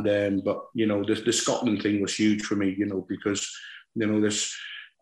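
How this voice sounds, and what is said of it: West Country English accent. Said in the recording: “I've got a ... West Country accent ... I'm a thoroughbred Scotsman with a West Country accent”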